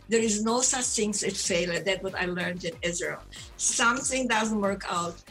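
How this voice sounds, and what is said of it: Speaks with a noticeable accent. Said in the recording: “listen to my accent voice”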